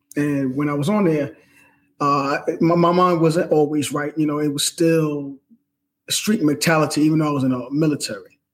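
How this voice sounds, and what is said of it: New York accent. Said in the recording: “I'm a New York sports fan. ... If you can't tell by that accent, right?”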